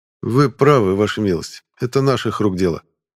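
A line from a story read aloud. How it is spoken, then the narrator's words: Calm admission. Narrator (Russian): спокойно признал шевалье Белов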